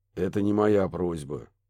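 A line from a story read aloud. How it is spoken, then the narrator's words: Grumbled. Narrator (Russian): пробурчал Барри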